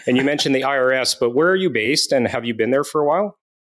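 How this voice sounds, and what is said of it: Canadian accent. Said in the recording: “I'm sure I have a Canadian accent”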